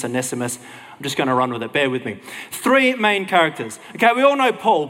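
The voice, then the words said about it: Australian accent. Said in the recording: “That's my Aussie accent doing it though.”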